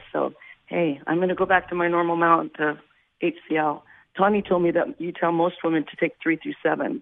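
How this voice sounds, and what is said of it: Hoarse, laryngitis-affected voice. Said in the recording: “laryngitis”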